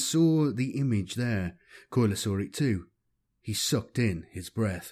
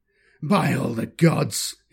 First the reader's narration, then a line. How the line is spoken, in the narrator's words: exclaimed